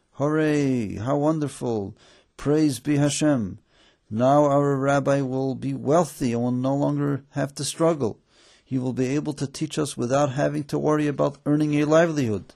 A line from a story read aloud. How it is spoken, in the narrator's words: Their joy knew no bounds, and they called out happily